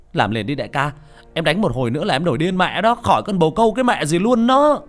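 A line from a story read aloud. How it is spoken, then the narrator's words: Shouting. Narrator (Vietnamese): Thạch Sinh liền la lên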